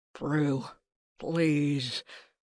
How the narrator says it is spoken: Gudrim moaned in my ear

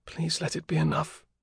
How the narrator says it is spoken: she whispered

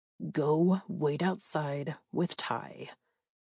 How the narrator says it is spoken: said

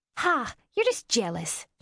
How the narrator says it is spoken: she snapped

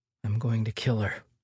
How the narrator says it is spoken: Deanna muttered under her breath

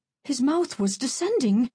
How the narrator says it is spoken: She gasped

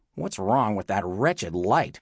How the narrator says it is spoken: she grumbled

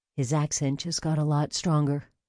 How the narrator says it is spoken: Link murmured

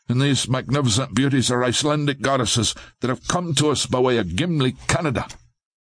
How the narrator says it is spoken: Lincoln blurted out

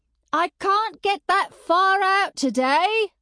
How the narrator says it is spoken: shouted

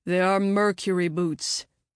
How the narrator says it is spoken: he finally grumbled

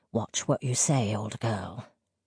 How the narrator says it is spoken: he said in a low voice

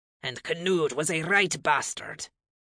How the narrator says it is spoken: Leif grumbled

